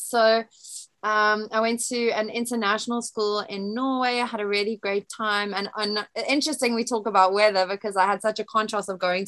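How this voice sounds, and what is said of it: Mild South African accent, American twang. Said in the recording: “quite a diluted South African accent ... It's not a very strong. And I've got like a bit of an American twang”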